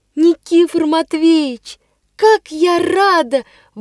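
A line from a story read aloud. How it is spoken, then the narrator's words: Joyful outburst. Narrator (Russian): вырвалось у меня радостно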